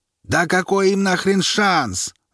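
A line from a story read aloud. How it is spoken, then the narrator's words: Sudden yell. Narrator (Russian): заорал вдруг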